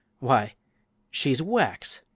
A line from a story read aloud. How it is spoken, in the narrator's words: a middle-aged gentleman now exclaimed